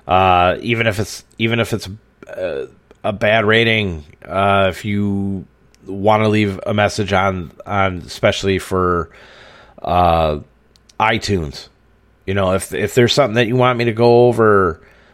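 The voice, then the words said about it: Wisconsin accent. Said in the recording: “I can't help the sound of my voice. It's a fucking Wisconsin accent.”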